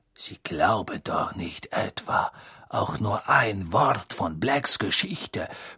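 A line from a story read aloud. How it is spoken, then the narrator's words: Whispered. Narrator (German): flüsterte Snape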